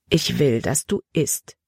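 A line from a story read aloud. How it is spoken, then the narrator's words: Plain. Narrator (German): sagte Frau Trowbridge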